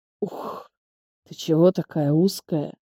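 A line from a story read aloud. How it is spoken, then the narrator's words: Hiss. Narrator (Russian): прошипел он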